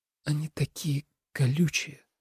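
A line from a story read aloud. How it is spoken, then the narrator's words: Whisper. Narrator (Russian): прошептал Тоби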